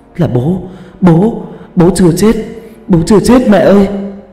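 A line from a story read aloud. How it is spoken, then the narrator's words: Screaming. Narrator (Vietnamese): Hà hét lên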